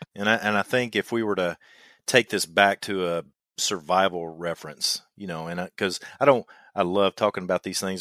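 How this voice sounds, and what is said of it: Kentucky twang. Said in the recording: “I know I've got a twang in my voice, and I'm from Kentucky”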